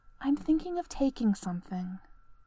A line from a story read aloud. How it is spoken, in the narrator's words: she whispered